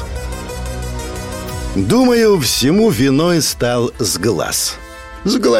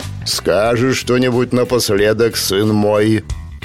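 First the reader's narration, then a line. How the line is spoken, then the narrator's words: Deep bass voice. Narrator (Russian): пробасил бородатый и пузатый дядька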